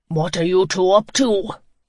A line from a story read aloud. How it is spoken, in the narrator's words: a deep voice bellowed